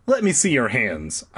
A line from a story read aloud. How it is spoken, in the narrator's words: said sharply